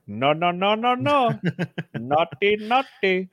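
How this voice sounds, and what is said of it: Mock Crip gang accent. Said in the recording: “I think that's how they talk. ... that's definitely a Crip accent.”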